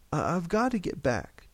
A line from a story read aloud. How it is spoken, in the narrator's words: George said desperately